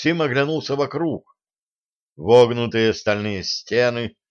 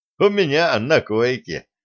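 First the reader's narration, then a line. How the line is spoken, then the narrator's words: Laughing. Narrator (Russian): засмеялся немец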